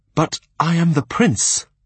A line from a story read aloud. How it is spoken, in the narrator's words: he cried